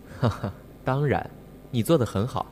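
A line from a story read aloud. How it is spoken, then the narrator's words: Gentle, seductive laughing voice. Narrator (Chinese): 季九笑得更加温柔，声似蛊惑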